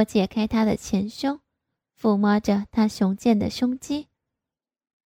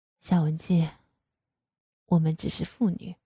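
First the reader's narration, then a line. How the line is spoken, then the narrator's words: Sighing. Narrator (Chinese): 爸爸叹了一口气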